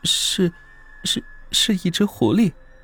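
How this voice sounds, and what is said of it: Timid, quiet, stammering voice. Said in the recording (Chinese): “有些胆怯。他从小就怕自己的老子，低着头小声的说道”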